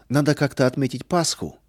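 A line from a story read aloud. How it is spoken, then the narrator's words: Cheerful. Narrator (Russian): весело сказал Арам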